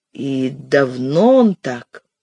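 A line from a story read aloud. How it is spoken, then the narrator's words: Strained near-whisper. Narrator (Russian): С трудом, почти шепотом, я спросил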